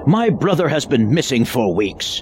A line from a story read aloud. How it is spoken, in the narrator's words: Kaplut bellowed